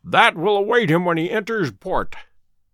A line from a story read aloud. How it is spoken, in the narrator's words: said he, chuckling